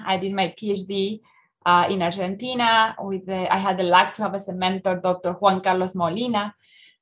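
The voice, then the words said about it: Argentine Spanish-accented English. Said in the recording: “as you may tell by my accent, I am coming from Argentina”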